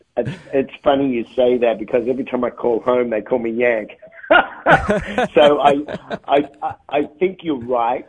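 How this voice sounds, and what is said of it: Australian accent. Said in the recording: “I love your accent. You have not lost that from Australia.”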